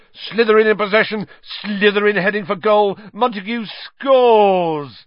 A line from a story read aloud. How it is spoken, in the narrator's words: Lee groaned